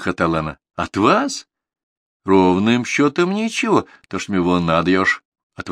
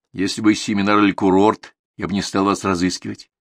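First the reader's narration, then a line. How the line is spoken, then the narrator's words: Plain. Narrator (Russian): сказала она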